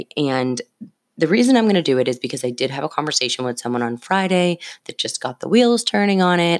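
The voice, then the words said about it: Slightly scratchy early-morning voice. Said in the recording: “It is 4:01 a.m. ... hopefully my voice isn't too scratchy for you all.”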